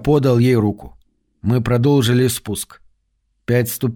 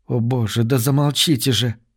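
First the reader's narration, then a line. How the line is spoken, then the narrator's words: Whisper. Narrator (Russian): прошептала Трис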